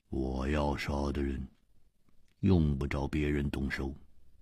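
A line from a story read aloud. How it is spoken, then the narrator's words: Cold. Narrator (Chinese): 一点红冷冷地说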